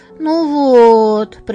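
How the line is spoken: Drawled. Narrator (Russian): протянул ты

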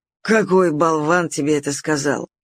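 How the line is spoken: Growl. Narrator (Russian): рыкнул Нептун

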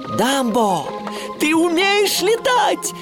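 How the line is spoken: Joyful shout. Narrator (Russian): радостно крикнул Тимоти

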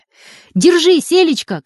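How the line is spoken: Girls shouting together. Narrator (Russian): крикнули дружно девочки

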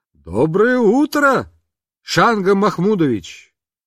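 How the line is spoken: Shouted. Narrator (Russian): Папа крикнул

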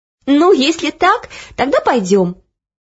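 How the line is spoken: Laughing. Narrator (Russian): рассмеялась Оля

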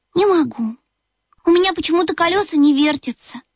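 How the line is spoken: Sad sigh. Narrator (Russian): грустно вздохнул Бип

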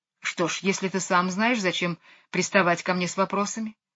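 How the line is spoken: Huffy snort. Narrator (Russian): фыркнула Мэри Поппинс

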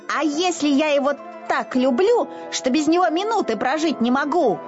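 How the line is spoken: Shouting. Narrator (Russian): кричал Изюмка

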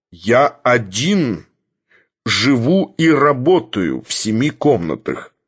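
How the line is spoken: Plain. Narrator (Russian): ответил Филипп Филиппович

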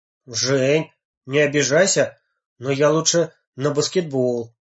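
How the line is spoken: Plain. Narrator (Russian): сказал

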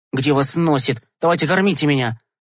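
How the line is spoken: Angry. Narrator (Russian): Сердито сказал Гешка

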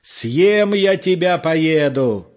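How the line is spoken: Shouted into the night. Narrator (Russian): закричал он в тишину, в ночь

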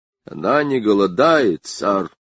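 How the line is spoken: Quiet. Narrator (Russian): тихо сказал он

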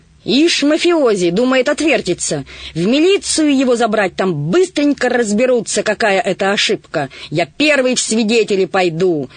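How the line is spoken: Heated shouting. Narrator (Russian): распалившись, кричал сизоносый

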